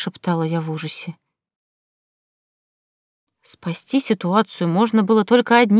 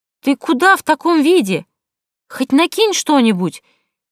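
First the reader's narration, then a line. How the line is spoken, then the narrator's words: Shouted after, dragon. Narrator (Russian): крикнул мне вслед дракон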